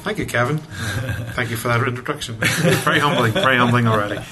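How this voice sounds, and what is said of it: Northern Irish accent. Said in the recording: “you have an accent of some sort ... I'm originally from Northern Ireland”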